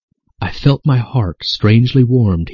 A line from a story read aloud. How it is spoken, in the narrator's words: he says